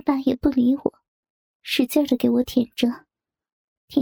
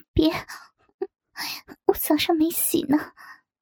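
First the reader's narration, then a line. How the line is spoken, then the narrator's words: Shy and quiet. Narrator (Chinese): 我害羞的小声说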